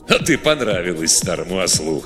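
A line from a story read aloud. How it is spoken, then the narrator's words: Laughing. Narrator (Russian): хохотнул Годдер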